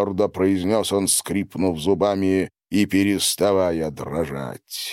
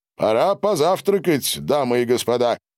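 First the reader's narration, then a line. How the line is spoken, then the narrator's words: Loud announcement. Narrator (Russian): громко сообщил он реке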